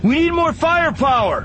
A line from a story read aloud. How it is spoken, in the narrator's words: Anakin shouted